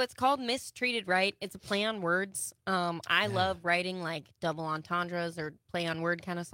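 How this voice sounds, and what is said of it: Usual voice. Nothing is said of it.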